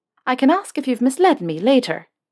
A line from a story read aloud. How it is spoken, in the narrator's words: she said, her voice light and a smile on her lips